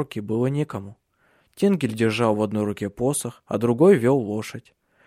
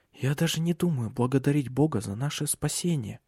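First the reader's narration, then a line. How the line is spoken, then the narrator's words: Whisper. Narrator (Russian): прошептала она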